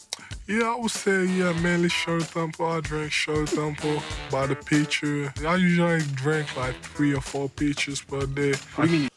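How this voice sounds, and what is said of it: Slight foreign accent. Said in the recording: “Joel Embiid has a little bit of an accent. I could hear him.”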